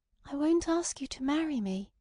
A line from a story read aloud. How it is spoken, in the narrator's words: she breathed out in shamefaced accents